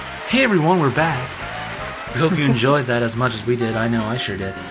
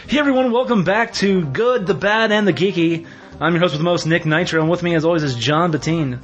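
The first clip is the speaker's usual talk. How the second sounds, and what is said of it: Fake radio announcer voice. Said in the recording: “do my fake radio voice though. I think I could do a totally fake radio voice.”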